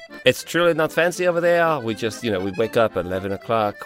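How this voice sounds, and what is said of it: Put-on French accent. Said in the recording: “I was in France, as you know, Toulouse ... the accent really rubbed off on me”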